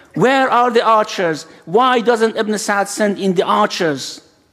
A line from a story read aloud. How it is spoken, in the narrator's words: shouts